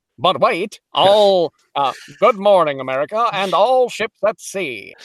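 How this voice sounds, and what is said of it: Put-on transatlantic accent. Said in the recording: “there's the transatlantic accent. That's really fun.”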